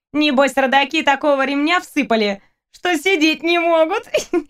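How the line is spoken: Giggling from the back. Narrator (Russian): Хихикнула Надя Федорова с задней парты

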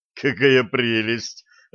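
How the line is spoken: Loud laughter. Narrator (Russian): расхохотался Блад

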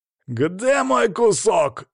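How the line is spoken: Pleased growl. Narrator (Russian): довольно зарычал он

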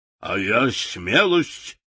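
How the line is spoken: Barking roar. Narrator (Russian): рявкнул трусливый лев

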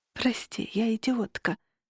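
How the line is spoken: Exhaled. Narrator (Russian): выдохнула

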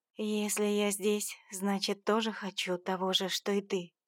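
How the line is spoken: Quiet. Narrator (Russian): произнесла тихим голосом

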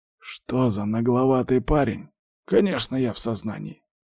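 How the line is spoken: Old man's inner grumble. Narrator (Russian): проворчал мысленно дед

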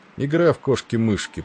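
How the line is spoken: Grumbled. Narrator (Russian): проворчал Тиндал

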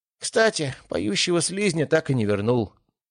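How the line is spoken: Sad. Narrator (Russian): грустно добавил Гелиос

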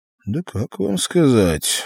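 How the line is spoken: Through gritted teeth. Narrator (Russian): процедил Артур

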